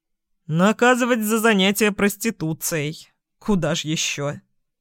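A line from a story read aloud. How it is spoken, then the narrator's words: Chuckling man. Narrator (Russian): Хохотнул мужчина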